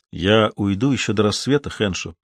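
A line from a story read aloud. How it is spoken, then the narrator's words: Plain. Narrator (Russian): сказал он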